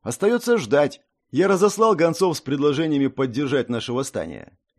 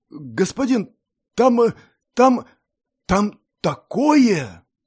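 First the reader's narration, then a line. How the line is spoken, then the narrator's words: Forced out with difficulty. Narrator (Russian): с трудом выдавил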